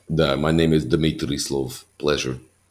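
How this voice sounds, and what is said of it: Put-on Russian accent. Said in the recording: “I like doing Russian.”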